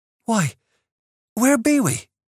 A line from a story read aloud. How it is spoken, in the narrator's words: exclaimed